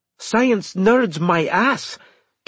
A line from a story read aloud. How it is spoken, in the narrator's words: Kiwi exclaimed